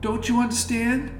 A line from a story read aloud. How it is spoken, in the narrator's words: said loudly